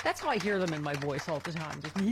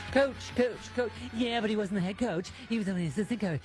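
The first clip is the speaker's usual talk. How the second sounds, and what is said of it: Impression of mainstream news media voice. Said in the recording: “that was my impression of the mainstream media”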